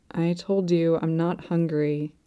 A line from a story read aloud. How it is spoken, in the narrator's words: It mumbles weakly